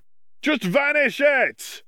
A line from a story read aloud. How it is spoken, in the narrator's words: one of the Gryffindors shouted